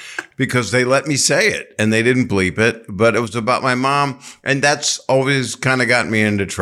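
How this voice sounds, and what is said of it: Usual voice. Nothing is said of it.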